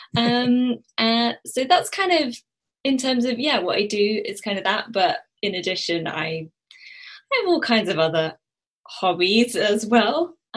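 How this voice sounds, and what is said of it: Southeast English British accent. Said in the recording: “I'm British. I'm from the southeast of England. If you couldn't already tell by my accent.”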